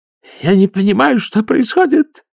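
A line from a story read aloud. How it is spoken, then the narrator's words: High-pitched voice. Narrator (Russian): высоким голосом заговорил эмигрант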